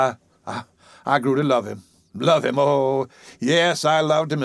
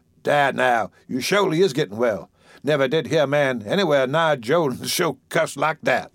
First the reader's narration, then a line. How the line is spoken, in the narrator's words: he chuckled with the remark